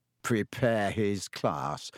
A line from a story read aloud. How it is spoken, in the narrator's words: Ron sneered after him